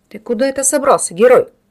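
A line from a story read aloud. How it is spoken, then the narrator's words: Mocking deep bass. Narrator (Russian): насмешливо пробасил бородач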